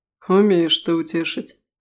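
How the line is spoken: Wry snort. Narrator (Russian): хмыкнул Даррис

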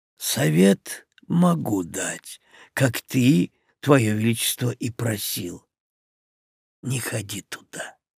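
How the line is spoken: Quiet after a pause. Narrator (Russian): негромко проговорил Корнелиус, помолчав

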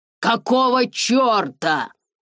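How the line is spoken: Shouting. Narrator (Russian): закричал он

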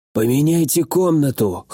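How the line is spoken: Hoarse command. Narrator (Russian): хрипло приказал я

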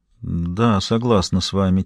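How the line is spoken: Quiet. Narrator (Russian): тихо проговорила она

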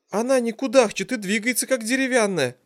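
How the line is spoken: Dejected, sinking voice. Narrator (Russian): Упавшим голосом вымолвила Ириха

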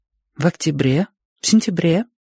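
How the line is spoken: Soft clarifying question. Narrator (Russian): мягко уточнила она

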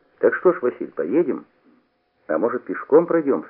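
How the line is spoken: Plain. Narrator (Russian): сказал я

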